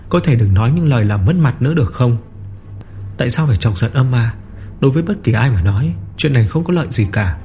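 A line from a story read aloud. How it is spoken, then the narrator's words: Sighing. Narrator (Vietnamese): Phòng ma lưu thở dài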